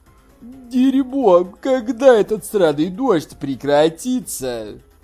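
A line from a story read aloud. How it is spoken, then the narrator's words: Grumbling. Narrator (Russian): проворчал толстый Хань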